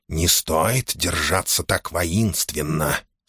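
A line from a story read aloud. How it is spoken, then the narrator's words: Smiling whisper. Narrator (Russian): с улыбкой шепнул ему Корхан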